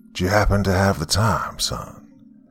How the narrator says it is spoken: he asked in a smooth voice

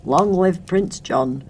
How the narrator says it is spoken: cried Tuck

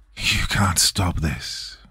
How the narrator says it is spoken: Reyes sneered, his voice echoing with the power of the veil

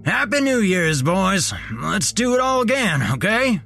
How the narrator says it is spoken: hollered

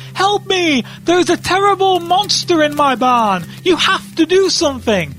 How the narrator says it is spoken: he's screaming and he's crying

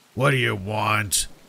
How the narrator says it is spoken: he asked in a gruff voice that sounded like he had been smoking 5 packs a day since he was 12

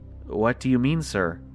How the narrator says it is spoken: I asked him nervously

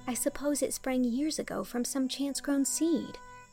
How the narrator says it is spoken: said Anne dreamily

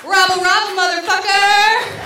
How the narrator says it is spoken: And yell

